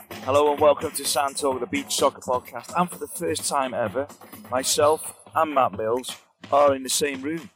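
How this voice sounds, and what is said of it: Tired, worn-out voice. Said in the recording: “you can tell by my voice, 8 hours a day commentating. I'm flagging a touch.”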